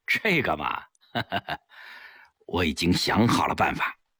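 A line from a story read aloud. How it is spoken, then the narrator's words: With a laugh. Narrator (Chinese): 齐长鹏一笑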